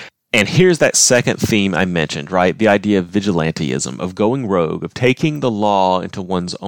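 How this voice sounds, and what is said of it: Usual voice. Nothing is said of it.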